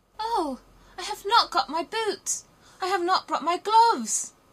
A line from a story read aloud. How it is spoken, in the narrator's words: cried little Gerda